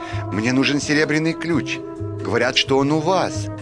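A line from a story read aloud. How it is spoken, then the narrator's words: Plain. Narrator (Russian): сказал мальчик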